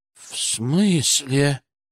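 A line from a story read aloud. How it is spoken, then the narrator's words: Frightened question. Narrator (Russian): спросил он испуганно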